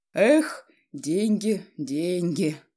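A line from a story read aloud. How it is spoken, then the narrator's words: Sighing father. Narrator (Russian): вздохнул отец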